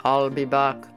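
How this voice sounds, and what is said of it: Poor imitation of Austrian accent. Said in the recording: “very bad Arnold voice ... You need to work on your Austrian accent.”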